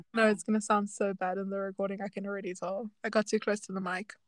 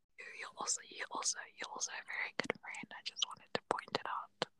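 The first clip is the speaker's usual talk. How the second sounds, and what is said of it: Soft close-mic ASMR-style voice. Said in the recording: “ASMR voice”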